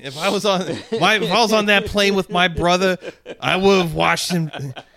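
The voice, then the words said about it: Imitates another person's voice. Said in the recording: “doing a Stanley impression”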